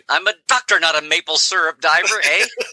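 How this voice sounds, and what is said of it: Put-on Canadian accent. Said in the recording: “they can make you look Canadian ... you can give you the accent ... Throw an A in there ... Perfect. You got it.”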